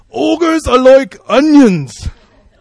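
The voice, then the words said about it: Poor Scottish accent as Shrek. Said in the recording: “I'm trying to do the Scottish accent... That was terrible.”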